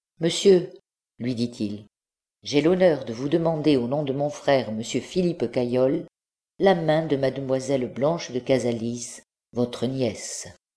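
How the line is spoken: Calm and polite. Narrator (French): d'une voix calme et polie

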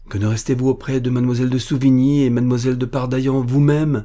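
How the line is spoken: Exclaiming. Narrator (French): s'écria monsieur de Saint-Père

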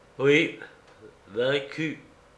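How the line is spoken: Somber voice. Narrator (French): Spendius reprit d'une voix sombre

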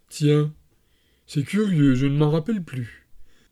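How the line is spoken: Sorrowful tone. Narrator (French): le capitaine nous dit d'un ton chagrin

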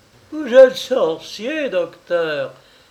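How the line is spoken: Gleeful, mischievous exclamation. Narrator (French): s'écria Madame de Couvry, joyeuse autant qu'une petite fille coupable d'une malice cruelle

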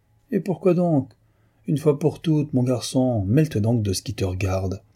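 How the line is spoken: Harsh retort. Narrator (French): répliqua durement M

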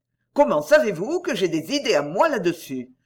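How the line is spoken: Stern question. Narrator (French): me demanda-t-il d'un ton sévère

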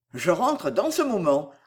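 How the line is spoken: Quick addition. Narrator (French): ajouta vivement Belfield

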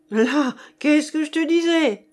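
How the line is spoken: Furious outburst. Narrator (French): s'écrie Monsieur Hilaire hors de lui

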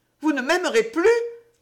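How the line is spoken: Anguished cry. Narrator (French): s'écria Lovate avec angoisse

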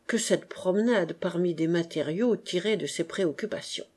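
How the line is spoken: Murmured. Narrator (French): murmura Octave

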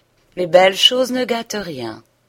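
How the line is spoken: Gallant tone. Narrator (French): Le notaire reprit d'un ton galant

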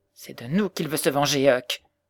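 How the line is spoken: Exclaiming. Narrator (French): s'écria-t-il

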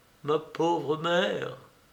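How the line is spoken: Murmured. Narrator (French): murmura-t-il

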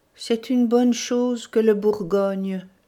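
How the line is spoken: Sad professor. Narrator (French): dit le professeur tristement

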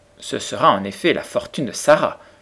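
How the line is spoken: Cool reply. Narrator (French): répliqua Monsieur Carmichael assez froidement

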